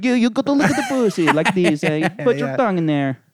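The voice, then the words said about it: Attempted Italian accent. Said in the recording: “it's like an Italian guy ... I don't know what fucking accent that was ... That was close.”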